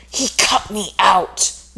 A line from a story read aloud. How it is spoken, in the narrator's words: Natasha hissed